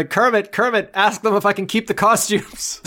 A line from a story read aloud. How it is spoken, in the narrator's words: she yells at Kermit